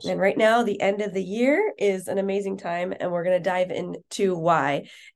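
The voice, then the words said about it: Hoarse, strained voice. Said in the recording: “sorry that I'm losing my voice.”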